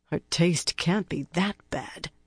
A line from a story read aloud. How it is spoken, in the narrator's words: the blocky, sleepy-eyed one muttered under her breath